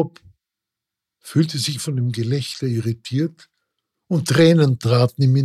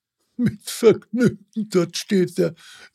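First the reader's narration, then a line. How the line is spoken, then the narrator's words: Laughing call. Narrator (German): rief der Barbier lachend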